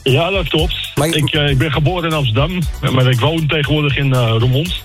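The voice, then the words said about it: Amsterdam Dutch accent. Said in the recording (Dutch): “Ik hoor toch wel een Amsterdamse accent bij jou, hè?”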